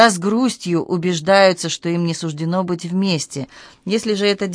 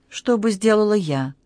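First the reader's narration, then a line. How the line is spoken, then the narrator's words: Quiet, uncertain. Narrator (Russian): Кикука произнесла это неуверенно, тихим голосом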